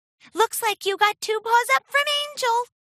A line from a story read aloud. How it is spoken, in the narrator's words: giggled